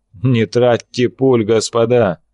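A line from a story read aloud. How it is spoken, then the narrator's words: Loud laughter. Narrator (Russian): расхохотался Берг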